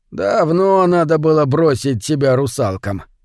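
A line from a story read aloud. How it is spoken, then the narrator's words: Old fisherman's mock grumble. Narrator (Russian): изображая недовольство, проворчал старый рыбак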